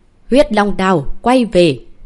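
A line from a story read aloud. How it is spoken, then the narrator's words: Alarmed man calling loudly. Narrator (Vietnamese): Mặt mũi Ngô Thanh Đế biến sắc, ông lập tức cao giọng hô một lần nữa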